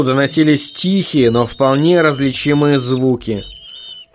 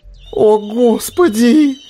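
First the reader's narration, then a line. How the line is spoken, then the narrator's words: Howl. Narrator (Russian): взвыл Висконский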